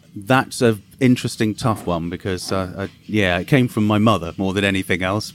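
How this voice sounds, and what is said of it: English accent, southern and eastern England. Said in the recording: “where did your accent come from? ... a combination of different places in the UK, the south of England, the east of England, and now in Cambridge ... a mixture of all of those joined together ... It's very good. It's different than my southern drawl.”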